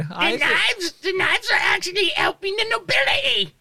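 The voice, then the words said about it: Creaky Skeksis-like character voice. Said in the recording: “You're talking like a skeksis ... that's the Molly voice”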